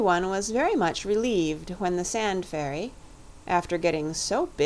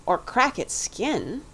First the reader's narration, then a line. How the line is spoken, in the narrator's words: Robert said anxiously